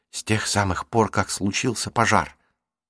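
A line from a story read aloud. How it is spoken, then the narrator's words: Whisper. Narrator (Russian): прошептала Марук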